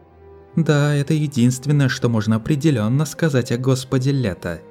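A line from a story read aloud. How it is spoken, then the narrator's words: Plain. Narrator (Russian): сказала Луисе Ял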